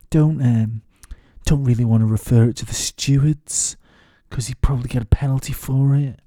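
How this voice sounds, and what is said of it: Put-on mixed English pop-star accent. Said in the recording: “Don't know what this accent is ... like some sort of half Paul McCartney, half half Cliff Richard type character”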